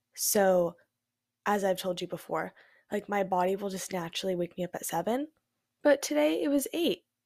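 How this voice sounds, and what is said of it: Congested, stuffy-nosed voice. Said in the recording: “my voice sounds a little funny. My nose is a little stuffed up.”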